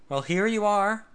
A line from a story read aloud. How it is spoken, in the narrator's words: he exclaimed